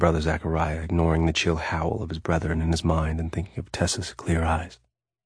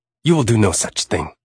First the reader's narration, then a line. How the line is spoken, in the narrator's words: snapped Raphael